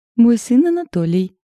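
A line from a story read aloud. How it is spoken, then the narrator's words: Joyful. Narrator (Russian): радостно сообщила новая соседка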